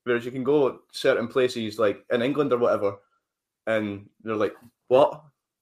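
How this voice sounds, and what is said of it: Mild Scottish accent. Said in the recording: “my accent ... this is actually quite a tame accent. There's some areas of Scotland that even we don't quite understand”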